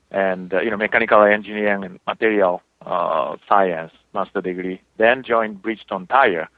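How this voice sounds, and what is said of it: Japanese accent. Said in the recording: “as you know, my accent, I'm from Japan”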